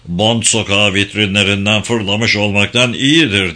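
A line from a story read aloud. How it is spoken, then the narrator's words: Grumbling. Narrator (Turkish): diye homurdandı Borisov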